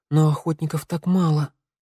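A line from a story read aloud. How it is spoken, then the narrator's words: Breathy exhale. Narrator (Russian): выдохнула Санда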